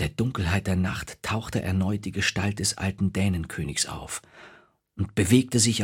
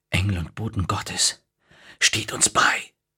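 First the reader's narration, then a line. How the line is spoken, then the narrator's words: Horrified whisper. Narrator (German): flüsterte er voll Entsetzen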